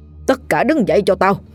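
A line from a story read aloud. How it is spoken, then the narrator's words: Old man's loud shout. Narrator (Vietnamese): Lão sư phụ quát to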